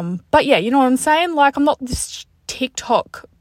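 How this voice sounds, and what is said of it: Usual voice. Nothing is said of it.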